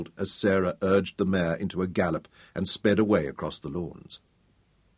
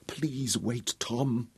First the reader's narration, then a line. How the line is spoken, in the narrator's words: she whispered, and the wind flung away the words